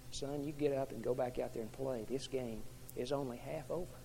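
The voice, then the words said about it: Very calm voice. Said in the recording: “In a very calm voice,”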